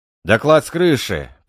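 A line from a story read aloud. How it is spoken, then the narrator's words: Shouted. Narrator (Russian): прокричал Кашин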